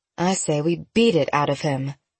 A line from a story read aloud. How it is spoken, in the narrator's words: Courtney muttered